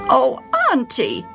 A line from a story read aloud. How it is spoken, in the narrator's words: Sally cried